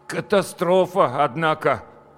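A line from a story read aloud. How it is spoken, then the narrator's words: Strained, forced words. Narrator (Russian): выдавил из себя Петя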